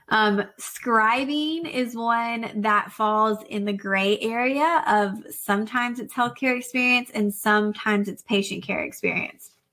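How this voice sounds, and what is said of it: Tired, fading, strained voice. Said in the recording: “I'm kind of losing my voice”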